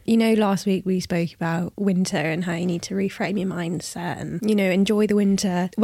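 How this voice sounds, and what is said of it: Congested voice from a cold. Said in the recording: “I have a cold. So if we sound terrible ... with like the coughing”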